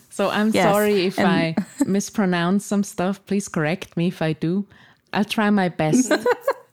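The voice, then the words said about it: Swiss-accented English. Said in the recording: “you can hear from my accent that I'm not from the United States. I'm from Switzerland ... It is a beautiful accent”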